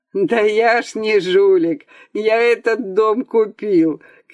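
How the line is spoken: Laughing shout. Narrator (Russian): кричал в ответ художник, засмеявшись

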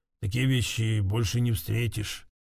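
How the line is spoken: Craftsman's mutter. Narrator (Russian): как мастер-ремесленник пробормочет

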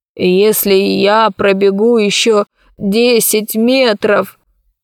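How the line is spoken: Old man's groan. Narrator (Russian): простонал старик

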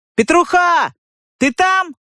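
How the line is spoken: Shouting into darkness. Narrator (Russian): щука крикнул куда-то во мрак из подвала

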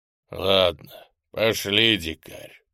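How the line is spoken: Growl. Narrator (Russian): прорычал Гриня

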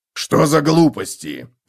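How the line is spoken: Barked, harsh. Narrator (Russian): рявкнул Готрек

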